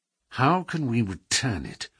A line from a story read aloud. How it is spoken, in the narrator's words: Holmes muttered